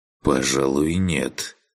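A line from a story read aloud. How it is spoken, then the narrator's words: Mutter. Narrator (Russian): пробормотал Макс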